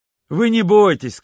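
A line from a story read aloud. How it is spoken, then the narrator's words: Cheerful boy. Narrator (Russian): сказал мальчик весело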